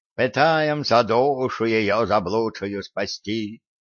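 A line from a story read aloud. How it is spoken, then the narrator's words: Unctuous bleating little bug. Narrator (Russian): елейным голоском пробреял жучок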